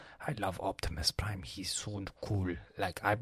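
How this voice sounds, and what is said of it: Usual voice. Nothing is said of it.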